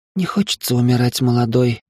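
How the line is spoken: Heavy sigh. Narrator (Russian): тяжело вздохнула она

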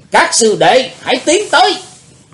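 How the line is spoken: Loud shout. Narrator (Vietnamese): Đệ nhất sứ giả quát lớn

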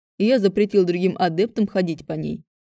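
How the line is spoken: Plain. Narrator (Russian): ответил Кай

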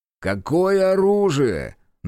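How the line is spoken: Mocking question. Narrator (Russian): насмешливо поинтересовался мужчина

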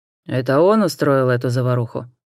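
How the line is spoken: Menacing question. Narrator (Russian): грозно спросил констебль

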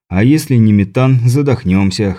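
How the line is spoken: Snort. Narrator (Russian): хмыкнул

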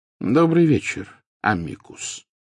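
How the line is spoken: Calm, casual welcome. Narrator (Russian): спокойно произнес Дамблдор, словно приветствуя гостя, явившегося на чашку чая

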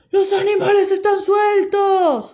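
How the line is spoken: Shouting in chorus. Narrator (Spanish): gritaron a coro

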